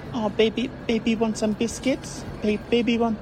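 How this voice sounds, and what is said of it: Baby talk voice. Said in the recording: “in that baby voice ... Oh, the baby voice, eh?”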